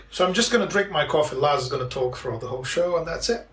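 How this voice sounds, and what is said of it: Foreign accent. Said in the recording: “it's the accent ... It's different ... The foreign accent is trendy”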